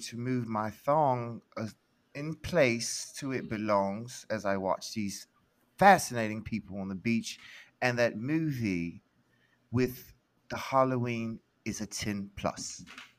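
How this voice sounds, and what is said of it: Well-done put-on accent. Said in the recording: “that was a terrible loss accent, but it was a great accent ... That's the best accent you've ever done ... genuinely good accent”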